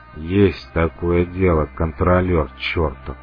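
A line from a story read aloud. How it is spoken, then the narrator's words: Muttered through clenched teeth. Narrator (Russian): процедил сквозь зубы старшая группа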